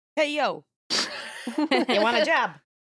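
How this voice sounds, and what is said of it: Put-on New Jersey accent. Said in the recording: “like a Jersey accent”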